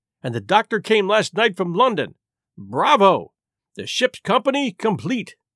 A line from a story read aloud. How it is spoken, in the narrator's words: he cried